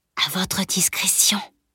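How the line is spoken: Whispered. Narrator (French): chuchota-t-il

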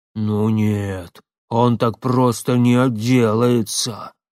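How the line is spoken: Muffled growl, burly man. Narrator (Russian): глухо прорычал амбал

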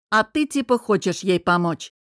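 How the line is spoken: Snapping with a chuckle. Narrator (Russian): Огрызнулся друг и, хохотнув

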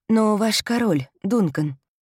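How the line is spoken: Soft, deliberately artless. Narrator (Russian): продолжает она мягко, нарочито, бесхитростно

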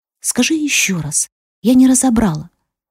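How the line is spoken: Close whisper in ear. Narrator (Russian): склонившись к уху, прошептала

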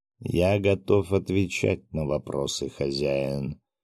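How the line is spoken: Even voice. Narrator (Russian): ровным голосом произнес

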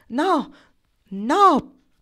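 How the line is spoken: Started shouting. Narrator (Italian): prese a gridare

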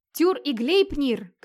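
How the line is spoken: Shouting from the darkness. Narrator (Russian): кричал из темноты Вигмар

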